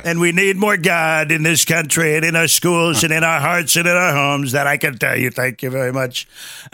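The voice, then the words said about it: Imitates another person's voice. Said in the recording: “you do the best impression of Trump I've heard by far. ... It's because I have the perfect throat.”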